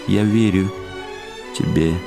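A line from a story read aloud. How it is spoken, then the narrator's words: Sad young woman answering. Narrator (Russian): печально отвечала девушка-лебедь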